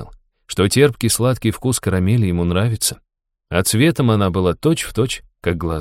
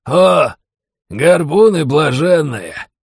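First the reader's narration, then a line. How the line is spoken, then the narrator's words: Hoarse laughter. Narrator (Russian): хрипло рассмеялся сын старосты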